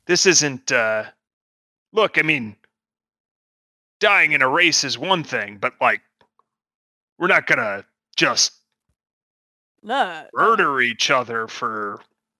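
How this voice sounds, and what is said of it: Put-on character accent. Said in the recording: “let me get my accent right”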